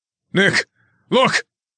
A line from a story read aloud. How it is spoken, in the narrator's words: Alan shouted